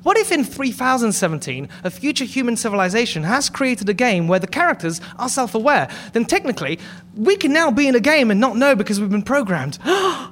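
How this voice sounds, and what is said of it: British accent. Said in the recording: “your accent ... So much more meaningful because he's British ... British like accent gives me so much gravitas”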